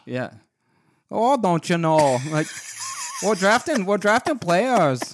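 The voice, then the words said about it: Attempted Minnesota accent, sounding Irish. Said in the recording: “like Minnesota accent? ... That's a tough accent ... That one wasn't as good. ... That's like an Irish. ... you sounded like Conor McGregor.”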